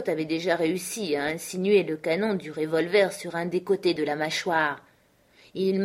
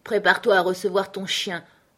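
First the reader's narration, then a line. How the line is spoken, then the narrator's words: Peremptory command. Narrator (French): ordonna Scott d'un ton péremptoire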